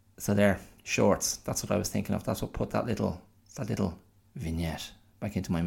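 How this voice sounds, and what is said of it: Usual voice. Nothing is said of it.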